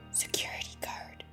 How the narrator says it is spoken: he all but breathed against Ziva's ear

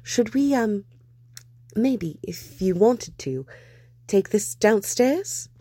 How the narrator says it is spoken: Steed stammered

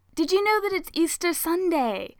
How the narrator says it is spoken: he asks excitedly

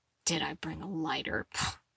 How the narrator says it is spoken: Eddie scoffed under his breath, for only himself and Steve to hear

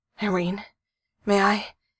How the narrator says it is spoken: said urgently

